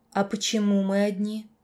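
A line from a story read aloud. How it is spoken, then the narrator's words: Plain question. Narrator (Russian): вновь спросила я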